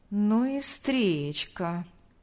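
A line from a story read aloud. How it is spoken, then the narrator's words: Drawled. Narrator (Russian): протянул Павел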